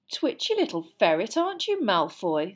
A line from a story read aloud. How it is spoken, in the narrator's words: said Hermione scathingly